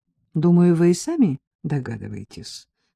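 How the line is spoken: Calm reply. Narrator (Russian): спокойно ответил Саша

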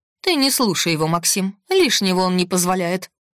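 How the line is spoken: Snort. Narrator (Russian): фыркнула Василиса

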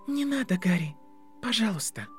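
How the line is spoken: Soft. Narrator (Russian): мягко сказала она

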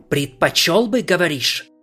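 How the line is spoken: Hissed. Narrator (Russian): прошипел он

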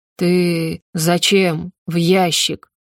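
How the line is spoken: Slow, overwhelmingly loud words. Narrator (Russian): медленно выговариваемые слова, заставляющие замереть от одной только громкости

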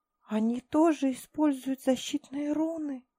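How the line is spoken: Whispered. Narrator (Russian): прошептала Тайра

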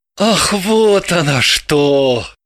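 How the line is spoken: Relieved sigh. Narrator (Russian): вздохнул с облегчением Орлов

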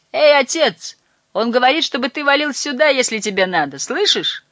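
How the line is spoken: Cheerful shout upward. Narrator (Russian): весело крикнул наверх

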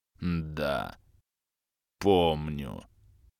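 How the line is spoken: Muffled, labored, slurred speech. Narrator (Russian): глухо отозвался Грим, с явным трудом шевеля непослушными и деформированными частичным изменением губами

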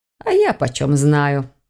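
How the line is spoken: Snorting witch. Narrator (Russian): фыркнула ведьма

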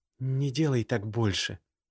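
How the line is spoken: Very quiet. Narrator (Russian): совсем тихо произнесла она

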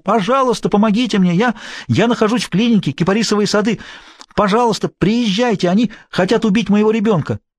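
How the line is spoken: Breathless shout into phone. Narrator (Russian): Задыхаясь, она закричала в трубку

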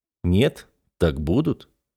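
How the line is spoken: Calm. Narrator (Russian): спокойно сказал

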